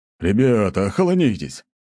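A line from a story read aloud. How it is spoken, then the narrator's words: Sharp rebuke. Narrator (Russian): прикрикнул на них Гвен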